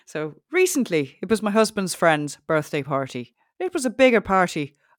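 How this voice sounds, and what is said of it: Put-on Irish accent. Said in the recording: “Can you do like maybe Irish? Can you think you can hold an Irish accent?”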